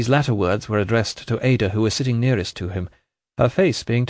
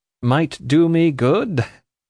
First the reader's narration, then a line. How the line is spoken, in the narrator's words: said Richard, forcing a laugh